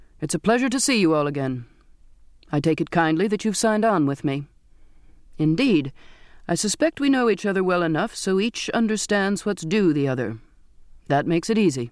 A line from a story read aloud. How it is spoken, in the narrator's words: said in a clear, firm voice